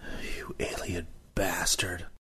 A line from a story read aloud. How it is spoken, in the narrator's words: I muttered